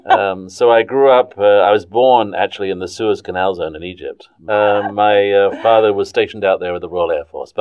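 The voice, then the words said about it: English accent. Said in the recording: “accent is from England.”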